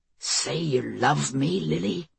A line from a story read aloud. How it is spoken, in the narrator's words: Greg was muttering